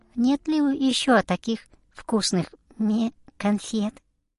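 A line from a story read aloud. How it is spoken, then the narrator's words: Sweet little voice. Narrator (Russian): козочка Лиза милым голоском спросила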